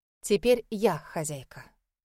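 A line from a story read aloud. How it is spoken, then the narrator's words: Plain. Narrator (Russian): сказала она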